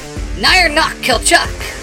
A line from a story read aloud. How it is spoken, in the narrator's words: Eric called out